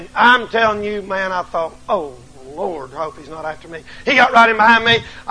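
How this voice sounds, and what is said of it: Southern US accent. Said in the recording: “these people up here talk Yankee, bad Yankee ... about four people said something about my accent”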